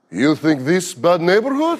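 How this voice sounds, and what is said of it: Fake Russian accent. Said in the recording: “I fake a Russian accent”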